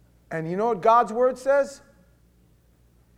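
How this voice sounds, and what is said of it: Usual voice. Nothing is said of it.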